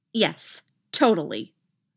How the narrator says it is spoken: Rey said firmly

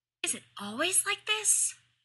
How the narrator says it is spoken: she hissed

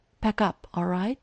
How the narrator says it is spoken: Errol sighed

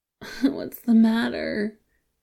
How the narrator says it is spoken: Wei Wuxian cries

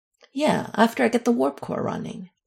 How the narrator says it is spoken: Michael replied dryly

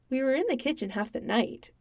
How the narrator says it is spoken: Sam said cheerfully

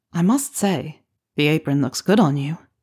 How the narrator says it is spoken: Harry purred

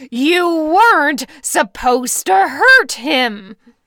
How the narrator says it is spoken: Bill roared

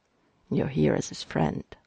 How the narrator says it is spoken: Mikey muttered under his breath, going for quiet intensity

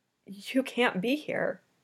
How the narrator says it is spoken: she said, her voice trembling but not with fear

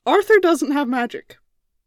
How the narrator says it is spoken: Merlin blurted out

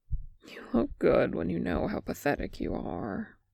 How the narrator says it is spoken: sighed

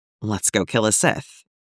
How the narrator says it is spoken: Cody whispers into the air between them

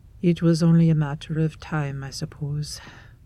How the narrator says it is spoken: Erebus sighs

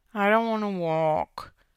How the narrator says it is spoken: Jackie muttered

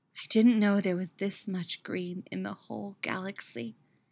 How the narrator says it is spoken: whispers in awe

